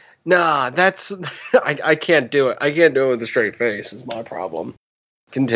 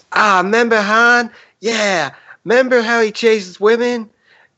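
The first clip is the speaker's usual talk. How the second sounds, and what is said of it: Cartoon character voice, member berries. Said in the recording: “You got to do it in the voice from South Park, the little grape things. The member berries. Yeah, you gotta do it in that voice... that's pretty good”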